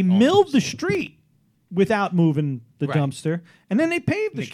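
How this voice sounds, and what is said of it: Usual voice. Nothing is said of it.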